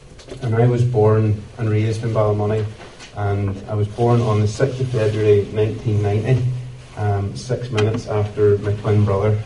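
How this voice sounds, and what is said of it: Northern Irish accent from Ballymoney. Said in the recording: “this culture accent that I'm rocking, it's my beginning did not come about on the Shankill Road. My beginning came about a few miles up the road in a town called Ballymoney”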